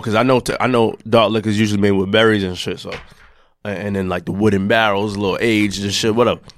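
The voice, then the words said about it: Hoarse, deeper than usual voice. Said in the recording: “Voice a little, probably deeper a little bit ... I lost my voice”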